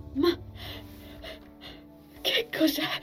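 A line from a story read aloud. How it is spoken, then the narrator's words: Breathless, broken voice. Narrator (Italian): ansimò Envil con voce rotta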